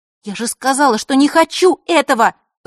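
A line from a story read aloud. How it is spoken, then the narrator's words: Angry shout. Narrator (Russian): зло выкрикнула Василиса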